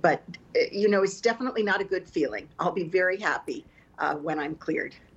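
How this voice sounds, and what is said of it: Congested, slightly sick-sounding voice. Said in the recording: “We can actually hear it in your voice a little bit”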